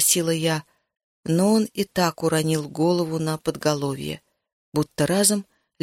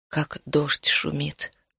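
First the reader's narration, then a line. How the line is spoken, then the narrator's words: Grief-stricken mutter. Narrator (Russian): пробормотал он, и ярость его разом сменилась непроглядной, беспросветной скорбью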